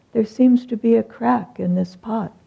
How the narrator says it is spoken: the saint just stood up and calmly said

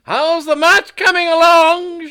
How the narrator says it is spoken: yelled cheerily

